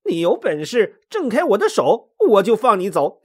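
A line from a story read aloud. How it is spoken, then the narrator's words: Smiling, good-natured. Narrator (Chinese): 孙悟空却不生气，笑眯眯的说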